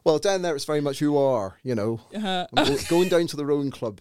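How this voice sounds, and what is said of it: West Country Devon English accent. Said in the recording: “I've come from the southwest, Exeter, down in Devon ... A bit of a bird in my voice ... sounds like a pirate's voice. But a bit more farmerish than that”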